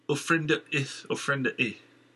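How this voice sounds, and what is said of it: Thick foreign accent. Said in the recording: “She spoke in her thick accent”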